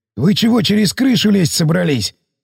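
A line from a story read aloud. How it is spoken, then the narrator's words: Hoarse voice. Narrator (Russian): сиплый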